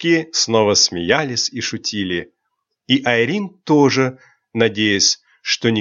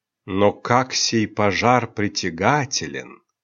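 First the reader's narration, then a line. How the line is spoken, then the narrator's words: Deep sigh. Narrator (Russian): глубоко вздохнула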